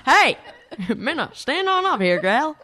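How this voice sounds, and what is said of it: Put-on Southern accent. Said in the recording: “Why does this person have a southern accent?”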